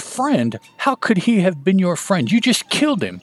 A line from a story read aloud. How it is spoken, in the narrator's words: Genosuke exclaims